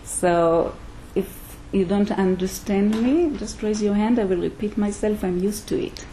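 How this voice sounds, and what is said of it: Israeli accent. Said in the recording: “You might hear an accent, yeah? ... This, what you hear is an Israeli accent, yes?”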